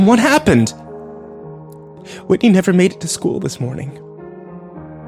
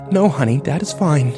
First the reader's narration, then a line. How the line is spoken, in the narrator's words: she whispered